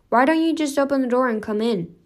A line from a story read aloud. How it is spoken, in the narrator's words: the boy called out